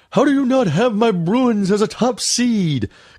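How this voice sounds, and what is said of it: Bad imitation of another person's voice. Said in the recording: “bad Bill Walton impression? ... terrible. ... They're horrible.”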